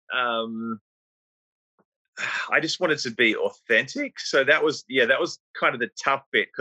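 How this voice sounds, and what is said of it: Australian accent. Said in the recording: “your Australian accent ... I don't think I ever tried to change my accent”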